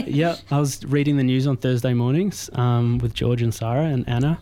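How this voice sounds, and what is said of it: Australian accent. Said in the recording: “people can probably already tell from my accent that I'm not from here ... I'm originally from Melbourne”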